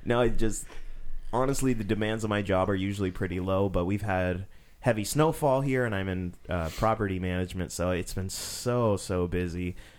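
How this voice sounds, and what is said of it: Tired, low-energy voice. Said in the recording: “you can hear the enthusiasm in my voice because I am under rested”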